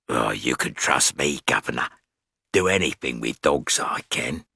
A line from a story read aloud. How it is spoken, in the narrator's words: He said hoarsely